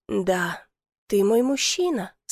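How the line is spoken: Quiet but very clear. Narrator (Russian): сказала тихо, но очень четко

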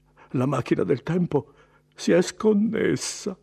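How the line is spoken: Near sob. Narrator (Italian): singhiozzò quasi

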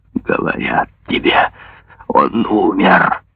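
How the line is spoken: Hoarse furious desperate shout. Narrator (Russian): Хриплым от ярости и отчаяния голосом он крикнул

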